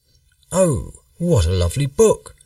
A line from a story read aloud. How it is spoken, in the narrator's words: exclaimed the boys